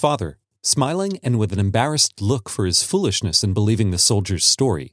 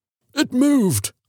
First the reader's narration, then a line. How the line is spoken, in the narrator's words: he cried with a look of horror